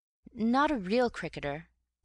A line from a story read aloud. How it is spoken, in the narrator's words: I was stammering